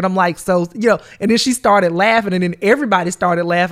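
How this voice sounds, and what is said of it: Southern US country twang. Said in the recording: “your accent's so country ... I have a twang ... I'm from Georgia”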